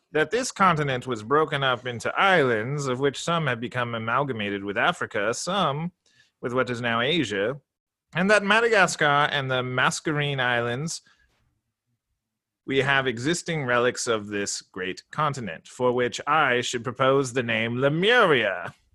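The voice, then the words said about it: Put-on posh explorer-style accent. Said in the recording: “Beautiful accent. ... I'm sure that was not a Nigel Thornberry accent. ... It was close.”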